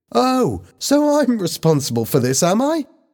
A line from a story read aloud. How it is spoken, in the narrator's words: Lisa cried